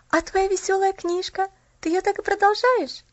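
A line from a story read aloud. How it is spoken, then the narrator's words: Slightly trembling voice. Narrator (Russian): спросила Поллианна слегка дрожащим голосом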